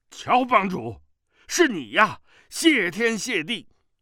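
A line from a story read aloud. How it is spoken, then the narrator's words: Loud shout. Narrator (Chinese): 吴长老便大声叫了起来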